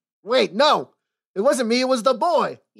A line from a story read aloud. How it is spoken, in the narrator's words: yelled Parlo as the constables lifted him bodily from his seat